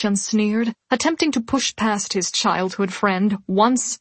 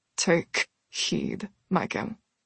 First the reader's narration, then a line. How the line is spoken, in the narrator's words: Bastian said through clenched teeth